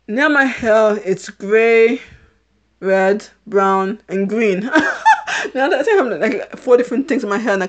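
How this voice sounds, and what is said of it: A slight British accent. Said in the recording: “I guess I do have a bit of a British accent”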